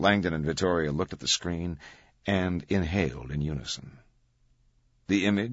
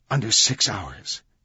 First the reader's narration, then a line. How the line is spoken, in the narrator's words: she whispered to Langdon, her face tense